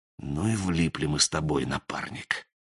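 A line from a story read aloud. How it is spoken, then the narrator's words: Soft whisper. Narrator (Russian): Сизый тихонько шепнул Мотыге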